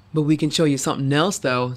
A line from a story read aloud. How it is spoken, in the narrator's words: added to mild chuckles